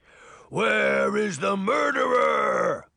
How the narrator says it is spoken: the giant bellowed

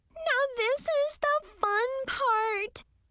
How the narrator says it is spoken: Brianna squealed

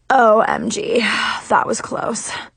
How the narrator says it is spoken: he breathed heavily

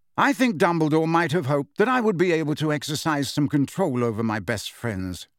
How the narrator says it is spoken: said Lupin

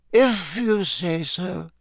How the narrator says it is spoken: muttered sleepily

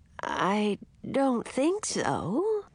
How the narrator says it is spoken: she said in a husky sort of voice

